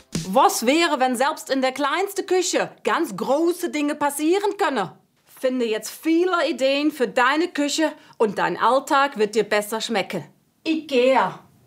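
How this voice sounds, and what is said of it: Put-on Dutch accent in German. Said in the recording (German): “einen IKEA-Werbespot neu vertonen mit niederländischem Akzent ... Ich hoffe, irgendjemand erkennt das als niederländischen Akzent ... Falscher Akzent. Holländisch ... Eher holländisch irgendwie”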